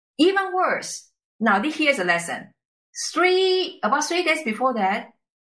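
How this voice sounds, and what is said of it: Mixed non-native English accent. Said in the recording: “my totally messed up accent ... it's kind of messed up between the Chinese, Japanese, German”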